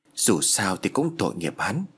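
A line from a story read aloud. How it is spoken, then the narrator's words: Muttering. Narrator (Vietnamese): Anh lẩm bẩm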